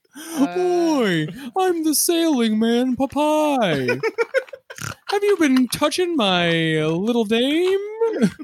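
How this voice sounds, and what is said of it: Cartoon character voice impression. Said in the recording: “You sound like Snagglepuss.”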